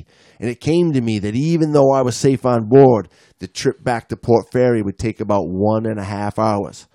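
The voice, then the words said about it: Inconsistent put-on Australian accent. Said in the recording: “your Australian accent ... Sometimes I feel like my accent's going in and out of. ... Kind of is, but I think you're doing a bang up job, mate.”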